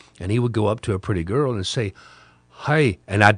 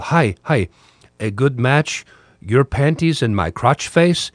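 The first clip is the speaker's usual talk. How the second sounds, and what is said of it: Weak attempt at Ukrainian accent. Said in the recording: “these doe innocent Ukrainian eyes ... I don't do accents very well”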